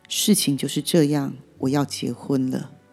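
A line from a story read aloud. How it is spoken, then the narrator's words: Cold reply. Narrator (Chinese): 男友冷冷的回应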